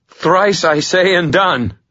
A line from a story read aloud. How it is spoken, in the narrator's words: I gasped, forcing the words out in a defiant scream